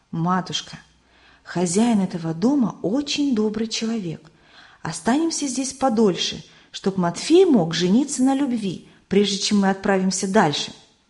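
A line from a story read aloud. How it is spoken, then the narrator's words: Whisper in the ear. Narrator (Russian): Самуил шепнул на ухо матери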